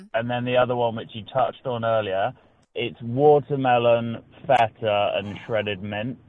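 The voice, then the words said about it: Attractive accent. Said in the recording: “You have the best accent. ... you just sound like an absolute stud. The accent”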